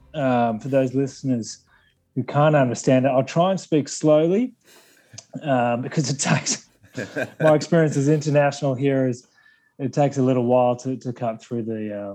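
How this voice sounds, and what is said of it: Broad Australian accent. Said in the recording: “my broad Australian accent ... what do we call the Australian Australian twang? I'll go with that.”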